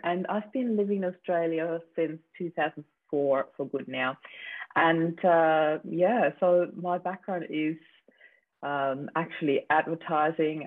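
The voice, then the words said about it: Slight Austrian accent. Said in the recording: “I actually am from Austria originally ... the slight accent that they can hear”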